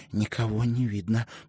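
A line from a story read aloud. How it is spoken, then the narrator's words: Whispered. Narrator (Russian): прошептала она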